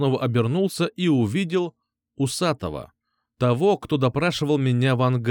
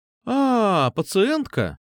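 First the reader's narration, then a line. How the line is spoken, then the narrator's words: Drawn-out drawl. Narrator (Russian): Протянула сестра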